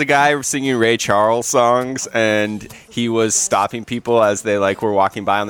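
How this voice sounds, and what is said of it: Usual voice. Nothing is said of it.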